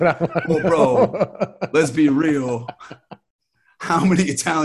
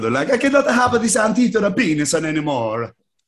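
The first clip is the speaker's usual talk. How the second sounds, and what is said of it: Put-on Italian accent. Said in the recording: “Why did that have to be an Italian accent?”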